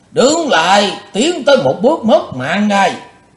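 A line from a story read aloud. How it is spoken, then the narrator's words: Thunderous old man's shout. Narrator (Vietnamese): Lão mắt lộ quát như sấm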